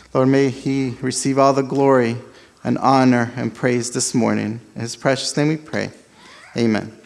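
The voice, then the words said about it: Spanish-influenced accent in English. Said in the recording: “the accent ... my English is not the best ... born in South America. My first language is actually Spanish”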